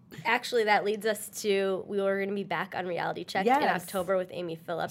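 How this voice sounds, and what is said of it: Congested nasal voice, Michigan accent. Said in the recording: “my Michigan accent ... Is shining bright ... It's like in my nozzle, and I have a bit of a cold ... you have your smelly cat voice on ... I have a bit of a sniffles”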